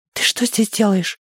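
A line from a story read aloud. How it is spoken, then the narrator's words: Loud whisper. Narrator (Russian): громко прошептала она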